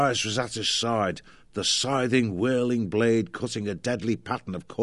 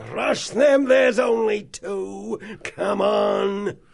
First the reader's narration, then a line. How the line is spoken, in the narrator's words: They yelling wildly